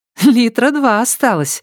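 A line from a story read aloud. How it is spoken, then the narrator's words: Giggling. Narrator (Russian): хихикнула девушка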